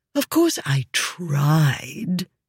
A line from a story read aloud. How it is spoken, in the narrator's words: she said with a sigh